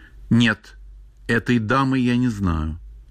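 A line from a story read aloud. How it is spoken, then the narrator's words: Simple plain reply. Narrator (Russian): Ревекка ответила просто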